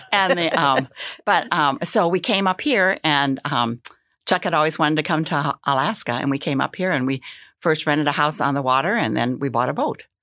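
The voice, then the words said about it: Wisconsin twang accent. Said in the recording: “Can you hear that Wisconsin twang?”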